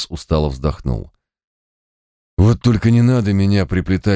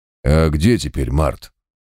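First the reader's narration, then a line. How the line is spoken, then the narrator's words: Skeptical snort. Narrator (Russian): хмыкнул квас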